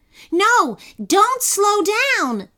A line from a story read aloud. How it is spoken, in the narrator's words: yelled Kenny